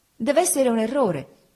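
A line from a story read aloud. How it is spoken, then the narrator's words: Exclaimed. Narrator (Italian): esclamai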